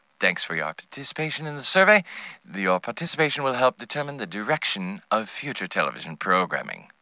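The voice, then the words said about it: Enchanting put-on British accent. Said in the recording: “delivered with an enchanting British accent.”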